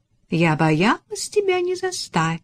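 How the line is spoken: Playful tone. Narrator (Russian): шаловливым тоном сказала

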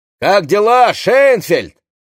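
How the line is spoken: Shouted. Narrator (Russian): крикнул

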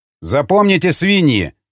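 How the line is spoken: Raider yelling. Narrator (Russian): заорал казнивший пленного рейдер

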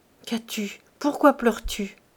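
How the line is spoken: Worried question. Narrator (French): demanda Silver d'une voix inquiète

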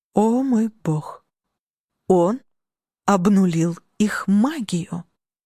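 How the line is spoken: Hoarse squeaky cry. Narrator (Russian): Хриплый писклявый крик

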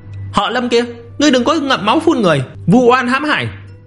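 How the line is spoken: Angry shout. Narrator (Vietnamese): Lương Dung Kỳ giận dữ hét lên

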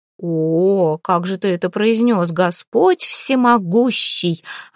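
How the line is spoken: Angry. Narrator (Russian): гневалась

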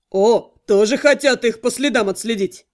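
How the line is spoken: Chuckling. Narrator (Russian): хохотнул Адар

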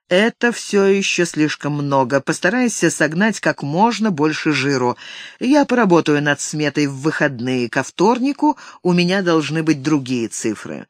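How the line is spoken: Gloomy objection. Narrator (Russian): Джейк мрачно возразил

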